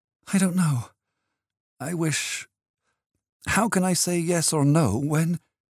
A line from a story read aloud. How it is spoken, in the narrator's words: She drew a quick, pettish breath of objection, writhing uneasily on her seat, murmured